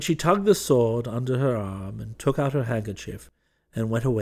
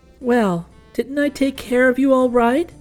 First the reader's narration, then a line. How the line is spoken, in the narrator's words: laughed the incubator baby